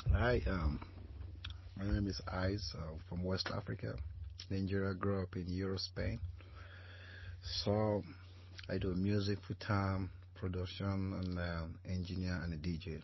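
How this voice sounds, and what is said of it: Foreign accent. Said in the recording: “We wasn't ready for that accent, right? ... Not only is the accent real and authentic”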